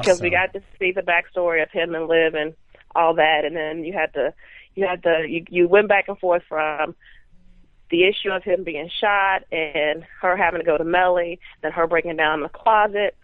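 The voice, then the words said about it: Strong Southern accent. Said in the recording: “With that Southern accent, Texas, is strong”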